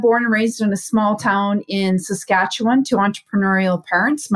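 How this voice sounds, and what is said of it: Canadian accent. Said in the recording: “i'm from canada and i'm sure my accent every now and then and the odd hey is gonna pop in there and and give me away”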